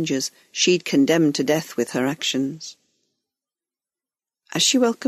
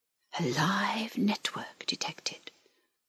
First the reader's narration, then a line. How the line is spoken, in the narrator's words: whispered the link